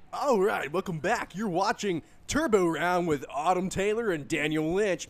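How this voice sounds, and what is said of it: Game show announcer voice. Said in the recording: “Use your game show voice and go ahead and announce it.”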